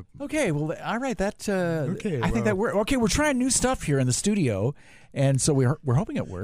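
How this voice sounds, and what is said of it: Put-on broadcaster-style voice. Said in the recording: “That was not your natural voice right there for a moment. Right. If you thought ... was a little broadcasty”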